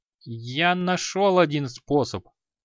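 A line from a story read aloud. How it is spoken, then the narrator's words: Mumbled. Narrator (Russian): промямлил Креол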